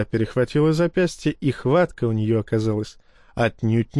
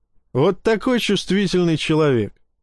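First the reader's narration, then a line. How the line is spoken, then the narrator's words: Laughing. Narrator (Russian): Посмеялся я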